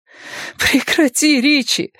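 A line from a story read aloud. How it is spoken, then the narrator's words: Breathless exclamation, woman. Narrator (Russian): выдохнула она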